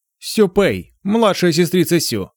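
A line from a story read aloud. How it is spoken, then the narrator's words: Joyful, smiling. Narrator (Russian): радостно улыбнулся ей Лицеё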